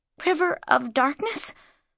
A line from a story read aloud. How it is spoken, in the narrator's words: Mara choked on the words